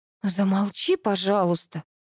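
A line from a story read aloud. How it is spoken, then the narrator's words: Quiet. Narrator (Russian): тихо произнесла я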